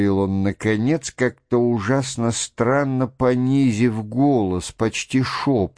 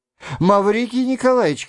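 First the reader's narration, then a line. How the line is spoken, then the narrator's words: Shouted. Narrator (Russian): крикнула она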